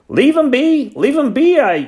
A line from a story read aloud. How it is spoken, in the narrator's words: he yelled